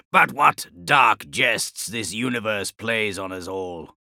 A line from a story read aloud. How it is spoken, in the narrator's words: Eidolon rasped